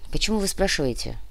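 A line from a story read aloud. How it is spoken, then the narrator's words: Sighing. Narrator (Russian): вздохнул Кортес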